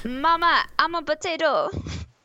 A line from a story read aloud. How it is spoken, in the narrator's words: he yells